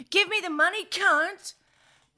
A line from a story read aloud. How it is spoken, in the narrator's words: yelled